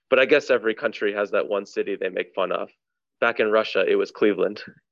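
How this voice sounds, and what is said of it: Put-on Russian accent. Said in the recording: “he's doing this all in a Russian accent”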